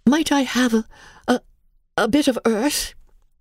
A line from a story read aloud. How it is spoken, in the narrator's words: quavered Mary